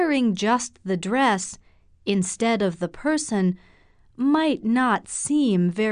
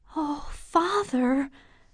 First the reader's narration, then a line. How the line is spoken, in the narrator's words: murmured the girl